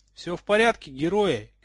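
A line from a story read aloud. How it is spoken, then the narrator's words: Shouted. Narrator (Russian): крикнула им Грейнджер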